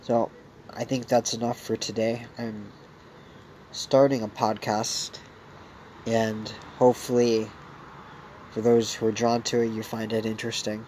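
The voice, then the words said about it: Voice affected by a cold. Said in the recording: “excuse my voice today. I have a little bit of a cold”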